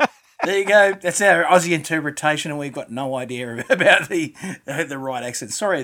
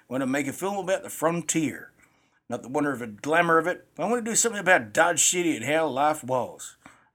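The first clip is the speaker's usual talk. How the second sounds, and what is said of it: Put-on American southern accent. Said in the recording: “You did a southern accent of some type.”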